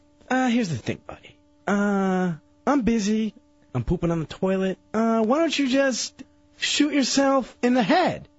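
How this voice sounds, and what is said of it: Imitates another person's voice. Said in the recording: “Is that an impression of me? ... his awful impression”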